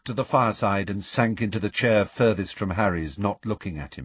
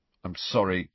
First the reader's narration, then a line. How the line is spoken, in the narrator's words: Ron mumbled